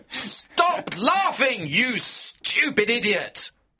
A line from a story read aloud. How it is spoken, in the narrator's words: I shouted